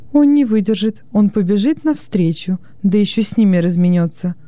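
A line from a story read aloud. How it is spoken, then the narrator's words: Exclaimed. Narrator (Russian): воскликнула Хрисотимида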